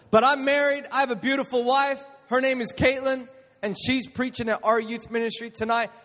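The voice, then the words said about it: American-sounding accent. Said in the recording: “I am Australian. I am not American. I just put on the accent ... I went to an American international school, and that's why I have this accent”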